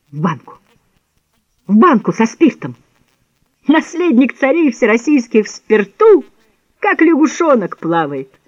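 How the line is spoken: Wild, chilling laughter. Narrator (Russian): Захохотал он вдруг таким диким хохотом, что дрожь пробежала по телу Петра

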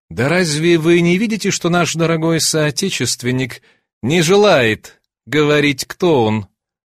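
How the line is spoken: Through gritted teeth. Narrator (Russian): произнес сквозь зубы господин с завитой шевелюрой

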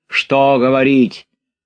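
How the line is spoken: Shout. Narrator (Russian): крикнул худощавый

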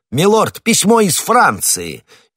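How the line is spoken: Shout. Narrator (Russian): Патрик и крикнул

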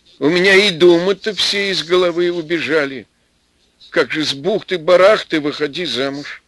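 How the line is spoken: Light, sincere laughter. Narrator (Russian): Отавиха мелко и искренне посмеялась

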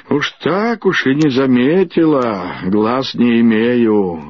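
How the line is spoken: Grumbling. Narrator (Russian): ворчала Виталия Гордеевна

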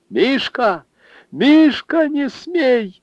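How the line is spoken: Mother shouting again. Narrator (Russian): опять закричала мать

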